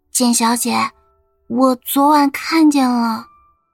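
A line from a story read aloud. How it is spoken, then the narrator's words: Slow, very faint voice. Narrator (Chinese): 小柳慢慢的开了口，声音小的如同蚊子叫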